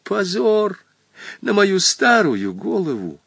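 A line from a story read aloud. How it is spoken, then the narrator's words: Barely audible whimper. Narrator (Russian): еле слышно заскулил теперь Хоттабыч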